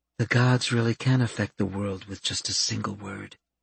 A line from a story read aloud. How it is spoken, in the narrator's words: Fluff murmured